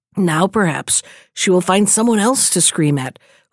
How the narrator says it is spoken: whispered they amongst themselves

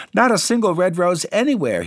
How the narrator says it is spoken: cried, and his eyes filled with tears

